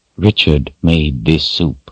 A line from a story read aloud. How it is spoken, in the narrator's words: he said in an even voice